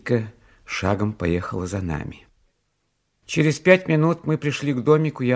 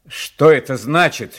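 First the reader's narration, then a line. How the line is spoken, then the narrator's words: Furious shout. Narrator (Russian): закричал я в бешенстве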